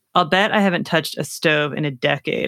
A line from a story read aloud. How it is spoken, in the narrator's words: I said